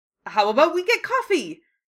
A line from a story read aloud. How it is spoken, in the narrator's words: He said desperately